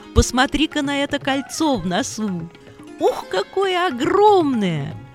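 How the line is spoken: Laughing. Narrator (Russian): смеялся Лакшмана

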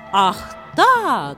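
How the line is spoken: Shouting. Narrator (Russian): закричал Равана

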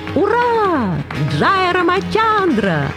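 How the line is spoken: Joyful shout. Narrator (Russian): радостно закричал Хануман

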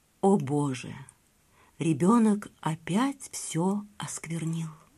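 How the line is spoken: Barely audible. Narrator (Russian): Брахман еле слышно проговорил

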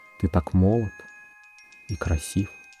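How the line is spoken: Tender whisper. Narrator (Russian): Хозяйка нежно зашептала мне на ухо

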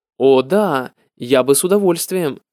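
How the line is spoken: Plain. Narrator (Russian): ответил чиновник

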